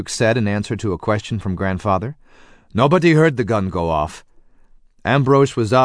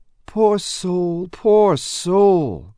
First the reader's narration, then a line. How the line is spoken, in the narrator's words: Grandmother groaned